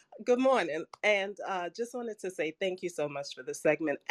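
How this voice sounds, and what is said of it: Choked-up, emotional voice. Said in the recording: “Oh, now I'm all choked up.”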